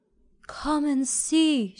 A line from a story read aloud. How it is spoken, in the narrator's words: she cried